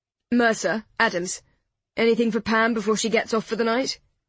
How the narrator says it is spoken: He asked it quickly

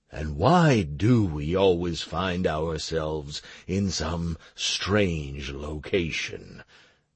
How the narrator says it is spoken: the knight asked in a low, ample voice

